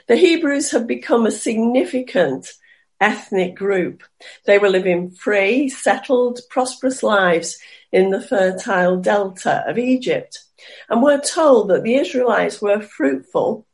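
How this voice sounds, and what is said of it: Slightly hoarse, croaky voice. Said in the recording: “I've got a bit of a frog in my throat this morning”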